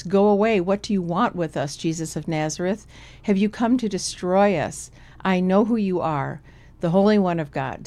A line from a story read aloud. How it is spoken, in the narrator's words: He cried out at the top of his voice